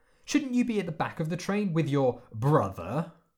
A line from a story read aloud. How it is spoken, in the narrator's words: She sneered the last word